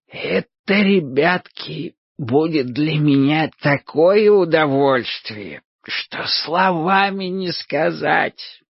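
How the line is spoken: Wheezy rasp. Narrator (Russian): просипел Лихо Тихоныч

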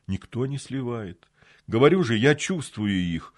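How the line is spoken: Tired reply. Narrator (Russian): устало ответил Марат

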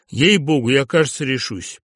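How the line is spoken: Exclamation. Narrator (Russian): Он воскликнул

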